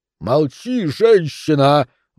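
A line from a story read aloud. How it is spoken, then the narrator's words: Count roaring. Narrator (Russian): взревел граф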